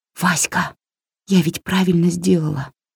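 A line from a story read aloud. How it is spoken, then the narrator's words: Quiet question. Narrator (Russian): тихо спросила Варя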